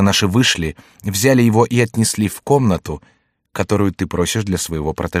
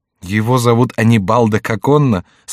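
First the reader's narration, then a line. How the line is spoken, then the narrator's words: Laughing question. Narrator (Russian): спросила Маргарита с хохотом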